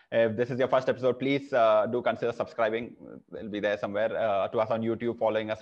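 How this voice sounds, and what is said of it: Indian English accent. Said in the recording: “your favorite NBA podcast in Indian accent”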